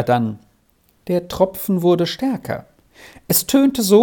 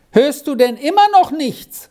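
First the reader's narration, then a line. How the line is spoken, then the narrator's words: Impatient call. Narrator (German): rief Squirrel ungeduldig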